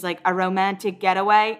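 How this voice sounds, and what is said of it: Poor put-on Australian accent. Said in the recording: “That was my attempt at an Australian accent. Never again.”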